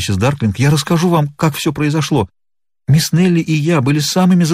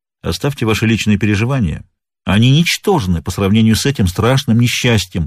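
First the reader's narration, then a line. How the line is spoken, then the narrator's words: Firm voice. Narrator (Russian): проговорил Пинкертон твердым голосом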